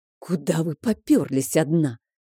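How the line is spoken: Hissing. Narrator (Russian): зашипел на меня Адриана

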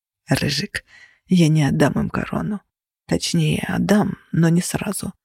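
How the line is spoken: Whisper. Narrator (Russian): прошептали мне

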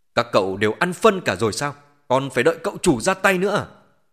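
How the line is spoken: Roaring at underlings. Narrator (Vietnamese): Vu Thành Quang gầm thét với đám đàn em phía sau lưng

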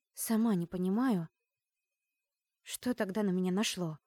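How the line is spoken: Sighing. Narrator (Russian): Вздохнула

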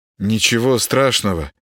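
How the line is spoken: Uncertain. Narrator (Russian): неуверенно ответил Володаров

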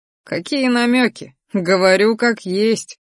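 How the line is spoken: Dragon snorting. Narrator (Russian): фыркнул дракон

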